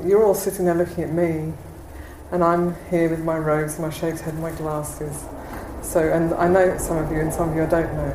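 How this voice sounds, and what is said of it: English accent. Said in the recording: “I've got an English accent”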